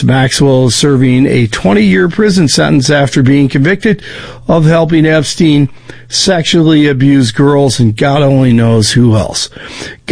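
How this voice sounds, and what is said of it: Hoarse, failing voice. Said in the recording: “I'm losing my voice right now.”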